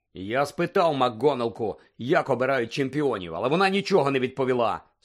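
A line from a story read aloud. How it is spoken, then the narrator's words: Angry grumble. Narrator (Ukrainian): сердито буркнув Джордж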